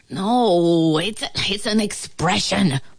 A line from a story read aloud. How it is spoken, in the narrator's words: moaned the ant